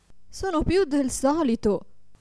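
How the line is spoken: Desperate woman's exclamation. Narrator (Italian): esclamava disperata la povera signora

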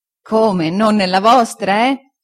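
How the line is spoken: Laughing reply. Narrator (Italian): rispose Omer ridendo

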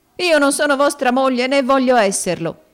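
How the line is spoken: Exclaimed with desperate courage. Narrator (Italian): esclamò la povera creatura col subitaneo e fiero coraggio della disperazione

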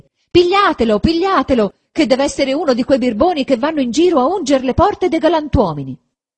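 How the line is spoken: Shouting. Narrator (Italian): gridava anche lei

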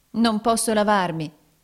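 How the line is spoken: Exclaimed. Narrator (Italian): esclamò Nicola

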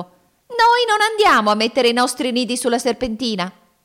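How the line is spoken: Shrieked. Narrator (Italian): la signora Fringuello strillò

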